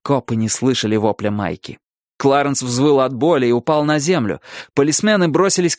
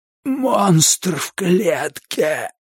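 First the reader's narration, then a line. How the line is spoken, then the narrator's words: Strained, forced out. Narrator (Russian): выдавил Кларенс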